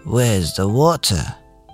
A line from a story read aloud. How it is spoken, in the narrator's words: The chicken took a deep breath, grunted ... said, in a small, raspy voice